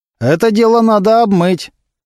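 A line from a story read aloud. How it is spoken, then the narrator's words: Loud. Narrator (Russian): громко сказал один из его поклонников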